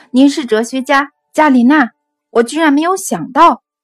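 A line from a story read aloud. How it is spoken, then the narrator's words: Excited exclamation. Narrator (Chinese): 尼可拉兴奋地……口中喊道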